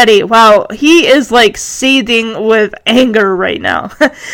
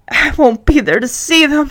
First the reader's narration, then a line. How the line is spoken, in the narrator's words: he mutters